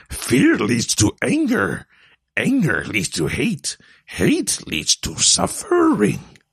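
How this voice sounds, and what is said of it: Yoda character voice. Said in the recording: “the Yoda voice ... so I can properly do the Yoda voice”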